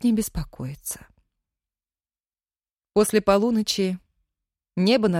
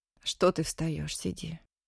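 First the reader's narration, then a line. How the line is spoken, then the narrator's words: Barely audible. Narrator (Russian): Чуть слышно сказала Дина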